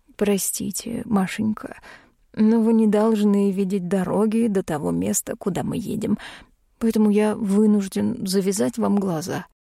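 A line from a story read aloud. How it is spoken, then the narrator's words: Apologetic tone. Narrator (Russian): виноватым тоном произнес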